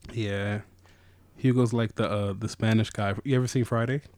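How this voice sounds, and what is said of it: Usual voice. Nothing is said of it.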